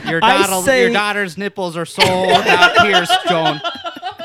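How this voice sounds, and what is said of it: Put-on Minnesota accent. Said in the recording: “you're making me talk with a Minnesota accent ... It's the accent ... I really think it's the accent that makes me feel like I can get away with it ... it just sounds ... So innocent”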